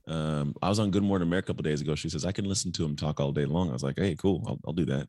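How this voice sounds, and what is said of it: Smooth, sultry radio voice. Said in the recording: “your sultry tones ... He's got a radio voice. ... he's got that quiet storm. ... Sultry, buttery.”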